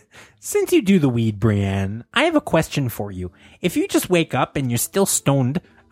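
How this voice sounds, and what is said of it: Canadian accent. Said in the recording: “You sound so Canadian.”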